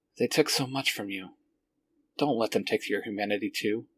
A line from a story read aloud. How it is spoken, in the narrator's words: says and sighs